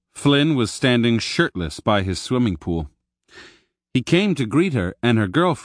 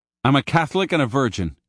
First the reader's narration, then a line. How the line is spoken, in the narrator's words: blurted out